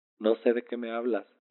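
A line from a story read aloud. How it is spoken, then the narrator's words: Said laughing. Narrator (Spanish): dije riendo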